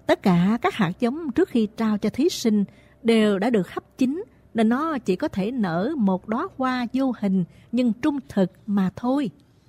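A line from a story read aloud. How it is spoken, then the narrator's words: King smilingly explaining. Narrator (Vietnamese): Đức vua mỉm cười giải thích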